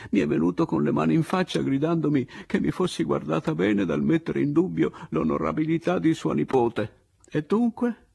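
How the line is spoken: Bitter laughing speech. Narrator (Italian): dissi io, ridendo acre

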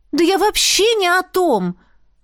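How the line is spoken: Exclaiming. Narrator (Russian): воскликнула я

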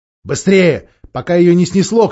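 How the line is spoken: Shout. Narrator (Russian): крикнул Питер

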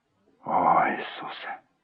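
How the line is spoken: Whisper. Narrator (Russian): прошептал он

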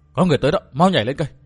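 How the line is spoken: Soft urgent cry. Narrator (Vietnamese): Lãnh Hồn Tiên Tử khẽ la

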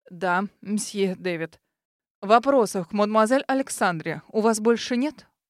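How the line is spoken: Even voice. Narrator (Russian): Ровным голосом проговорил Дэвид

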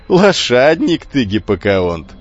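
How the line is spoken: Shouting through laughter. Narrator (Russian): сквозь смех крикнул

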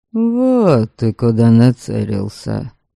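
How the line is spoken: Grumbled. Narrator (Russian): буркнул Верим

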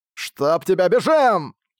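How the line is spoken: Hurried shout. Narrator (Russian): поспешно прокричал Чипхита

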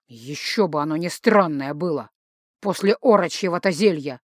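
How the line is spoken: Grumble. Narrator (Russian): проворчал папа

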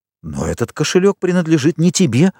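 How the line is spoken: Exclaimed. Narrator (Russian): воскликнул Морель

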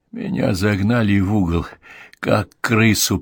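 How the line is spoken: Strained, choked voice. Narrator (Russian): произнес сдавленным голосом

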